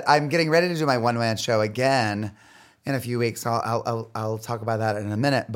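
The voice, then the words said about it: Hoarse, strained voice. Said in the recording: “My voice is a little bit shot. I've been screaming on stage forever.”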